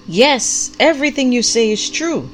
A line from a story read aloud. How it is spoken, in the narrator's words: the prophet called out with equal vigor